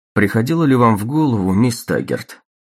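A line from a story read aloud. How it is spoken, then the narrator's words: Indifferent, detached tone. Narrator (Russian): заговорил Голд равнодушным тоном дискуссии на отвлеченные темы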